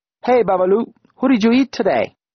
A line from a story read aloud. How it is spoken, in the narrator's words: they barked to a chorus of laughter